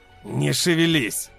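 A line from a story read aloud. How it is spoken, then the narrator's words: Hoarse male voice. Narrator (Russian): послышался хриплый мужской голос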